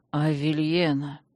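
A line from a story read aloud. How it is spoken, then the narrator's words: Sullen grumble. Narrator (Russian): хмуро буркнул магистр с забинтованной головой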